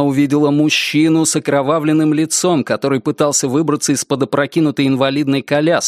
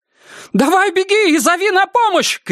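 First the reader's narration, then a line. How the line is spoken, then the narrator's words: Shouted. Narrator (Russian): крикнула ей Герт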